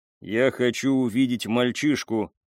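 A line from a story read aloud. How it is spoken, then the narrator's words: Plain. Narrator (Russian): сказал Лио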